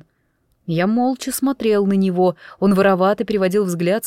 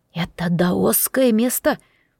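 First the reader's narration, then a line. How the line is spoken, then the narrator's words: Near whisper. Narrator (Russian): Он понизил голос почти до шепота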